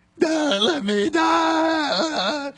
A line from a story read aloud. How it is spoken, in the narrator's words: pleading